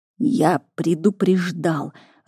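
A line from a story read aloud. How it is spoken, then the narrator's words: Growled in reply. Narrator (Russian): рыкнул в ответ дракон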